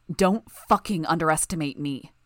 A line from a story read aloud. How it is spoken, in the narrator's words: I snarled in response